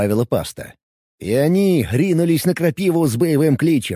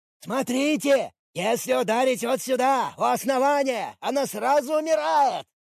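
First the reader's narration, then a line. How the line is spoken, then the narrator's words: Shouted. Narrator (Russian): кричал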